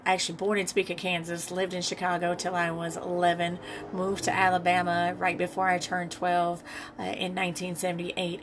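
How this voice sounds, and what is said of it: Regional accent, not Californian. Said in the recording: “Listening to my accent, you know that I am not born and raised here.”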